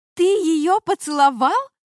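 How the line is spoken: Shriek. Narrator (Russian): завизжала

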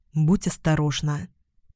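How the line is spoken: Whispered. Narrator (Russian): прошептал

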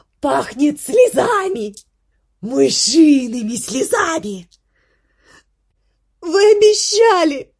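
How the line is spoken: Shouting. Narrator (Russian): закричал Десперо

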